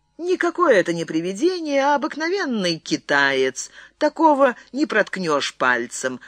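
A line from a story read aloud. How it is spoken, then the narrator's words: Laughing. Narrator (Russian): рассмеялся Рикардо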